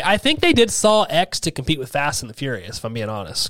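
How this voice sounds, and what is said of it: Hoarse, sick-sounding voice. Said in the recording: “I sound like horse. I'm sounded sick. ... Like a cold. ... Like a bad cold.”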